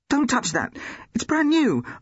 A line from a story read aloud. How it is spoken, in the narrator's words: blurted out